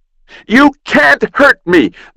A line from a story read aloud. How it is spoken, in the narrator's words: the boy shrieked